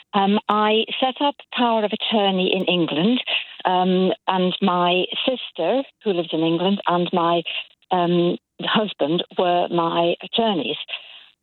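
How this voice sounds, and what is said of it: English accent. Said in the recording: “You'll tell from my accent, I was born and brought up in England.”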